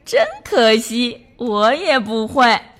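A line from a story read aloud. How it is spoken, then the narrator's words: Hearty laughter. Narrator (Chinese): 落地哈哈大笑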